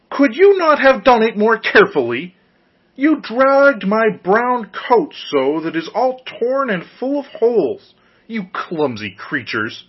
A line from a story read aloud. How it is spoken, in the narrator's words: As soon as the dwarf had recovered from his first fright, he cried with a shrill voice